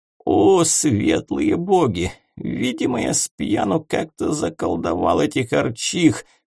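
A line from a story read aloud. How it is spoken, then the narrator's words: Groaning. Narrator (Russian): простонал Парацельс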